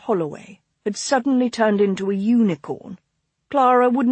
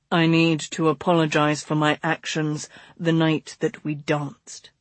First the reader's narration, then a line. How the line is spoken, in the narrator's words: he said gravely